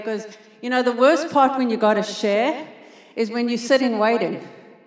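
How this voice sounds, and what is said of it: South African accent. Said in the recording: “I am South African. If you're not tracking my accent”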